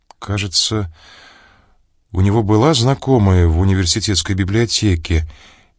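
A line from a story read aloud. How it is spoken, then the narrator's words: Uncertain. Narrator (Russian): неуверенно сказала Черных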